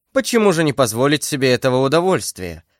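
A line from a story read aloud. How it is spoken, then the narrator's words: Meek, carefree voice. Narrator (Russian): сказал Арамис своим кротким и беспечным голосом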